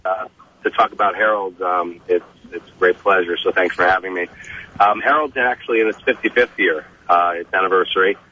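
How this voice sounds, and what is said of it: Voice affected by a cold. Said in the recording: “excuse my voice. I have a little bit of a cold.”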